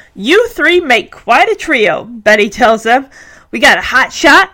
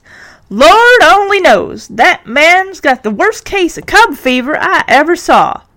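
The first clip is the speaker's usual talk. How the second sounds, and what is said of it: Put-on Southern accent. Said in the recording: “giving Betty a southern accent”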